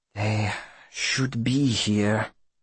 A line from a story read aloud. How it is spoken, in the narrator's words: He looks about, bewildered, and mutters to himself